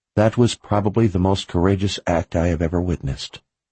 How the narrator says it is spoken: she said softly

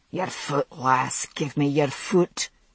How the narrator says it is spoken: he hissed

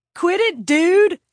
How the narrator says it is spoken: Kurt shouted

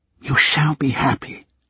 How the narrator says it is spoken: she whispered

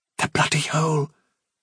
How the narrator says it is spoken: whispered Fiver

